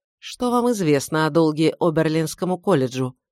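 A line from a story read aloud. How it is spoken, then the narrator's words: Plain. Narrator (Russian): спросил он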